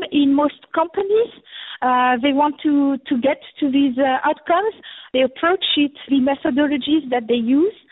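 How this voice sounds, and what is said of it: French accent. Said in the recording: “I'm French, so with my accent”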